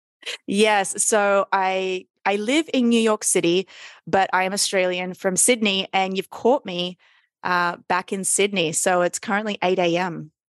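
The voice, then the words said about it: Australian accent. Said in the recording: “You sound Australian?”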